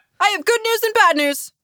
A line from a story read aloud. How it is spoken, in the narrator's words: Nesma yelled